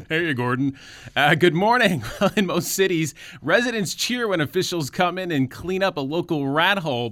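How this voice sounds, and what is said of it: Polished radio announcer voice. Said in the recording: “That's supposed to be my radio voice ... on the radio, he goes”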